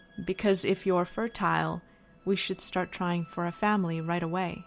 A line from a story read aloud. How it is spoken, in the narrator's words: he said very calmly